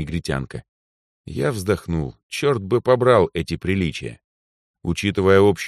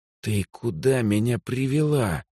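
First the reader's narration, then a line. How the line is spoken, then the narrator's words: Hissed into ear. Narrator (Russian): прошипел на ухо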